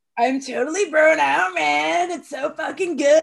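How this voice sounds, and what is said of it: Stereotypical California bro voice. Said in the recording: “What are you doing with your voice? ... Isn't that like a bro voice? ... It's like a California voice. ... That's your impression of a Californian? ... Stereotypical”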